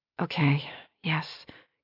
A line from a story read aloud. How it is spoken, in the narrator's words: Kira panted